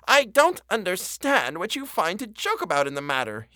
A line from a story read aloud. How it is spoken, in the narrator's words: exclaimed angrily